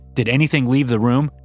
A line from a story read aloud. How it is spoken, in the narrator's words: my boss asked